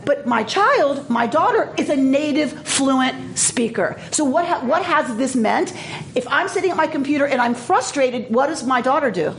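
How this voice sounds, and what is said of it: Heavy foreign accent. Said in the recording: “I speak with a very thick accent ... I speak with a heavy accent”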